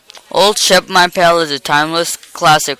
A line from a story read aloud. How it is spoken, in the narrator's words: roared the teacher